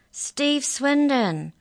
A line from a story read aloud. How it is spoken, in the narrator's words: I called out in my gravelly voice